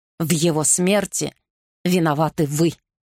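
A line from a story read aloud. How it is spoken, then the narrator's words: Growling. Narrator (Russian): прорычал он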